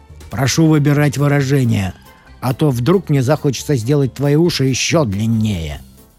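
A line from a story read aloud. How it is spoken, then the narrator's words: Stern growl. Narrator (Russian): сурово прорычал Серый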